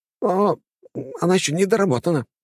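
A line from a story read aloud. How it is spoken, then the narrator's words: Flustered babbling. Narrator (Russian): залепетал мастер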